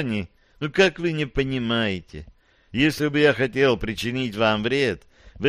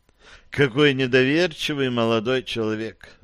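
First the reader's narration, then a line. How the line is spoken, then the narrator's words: Sighed. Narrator (Russian): вздохнул доктор Смит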